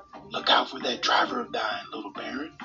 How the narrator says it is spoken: whispered the tavern keeper

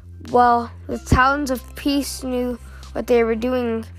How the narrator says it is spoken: she said bitterly

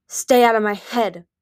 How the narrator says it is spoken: Flame snarled at him

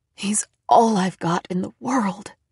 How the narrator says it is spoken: she whispered

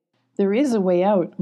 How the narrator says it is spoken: Molly said, smiling with a giggle

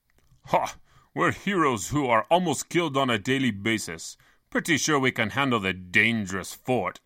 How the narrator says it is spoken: scoffed

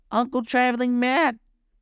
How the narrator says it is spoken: Gobo cried in astonishment

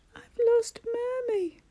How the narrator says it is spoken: wailed

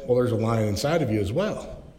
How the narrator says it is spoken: The guide calmly said

